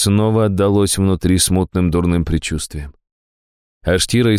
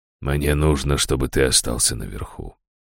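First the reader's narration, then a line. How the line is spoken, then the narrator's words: Gentle. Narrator (Russian): мягко проговорил Раштау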